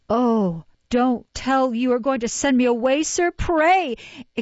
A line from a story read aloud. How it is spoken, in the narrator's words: exclaimed Oliver, alarmed at the serious tone of the old gentleman's commencement